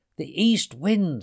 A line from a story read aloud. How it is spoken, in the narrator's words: screeched Eagle